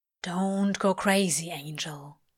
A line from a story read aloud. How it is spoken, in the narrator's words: Crawley murmurs